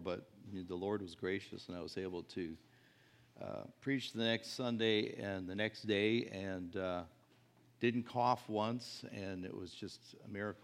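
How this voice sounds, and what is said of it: Slightly rough, hoarse voice. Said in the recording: “my voice is a little rough ... I've been struggling with some kind of irritation for a number of weeks, but it's way better”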